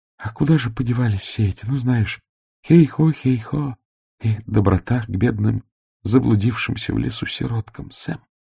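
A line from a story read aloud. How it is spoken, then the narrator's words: Whispered. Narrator (Russian): прошептала Сибилла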